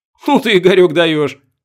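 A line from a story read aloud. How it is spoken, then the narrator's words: Laughing. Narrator (Russian): засмеялся Серега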